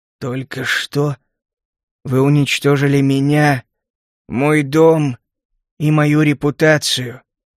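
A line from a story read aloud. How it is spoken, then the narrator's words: Lifeless flat voice. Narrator (Russian): безжизненным голосом произнес он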